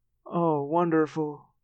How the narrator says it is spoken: Cassie moaned

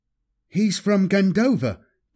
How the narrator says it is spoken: Kaladin exclaimed in surprise

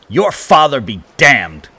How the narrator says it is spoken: Carter spat

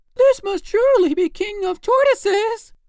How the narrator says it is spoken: He was very much astonished at the strange sight and cried

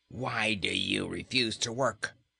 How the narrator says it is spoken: demanded Cor in a harsh voice

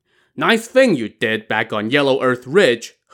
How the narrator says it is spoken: He Tao shouted at him

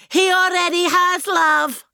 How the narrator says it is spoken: I shouted back

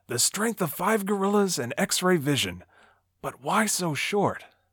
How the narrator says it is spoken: he mutters to himself

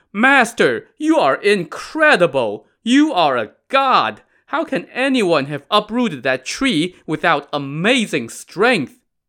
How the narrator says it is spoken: Stunned at the sight of this mighty feat of strength, the gang fell to their knees and cried

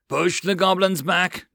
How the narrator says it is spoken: John roared

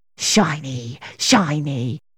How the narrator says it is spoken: The bog pixie muttering

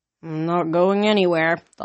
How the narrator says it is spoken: Thalia groaned

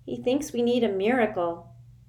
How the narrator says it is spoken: Sticky said in a bleak voice

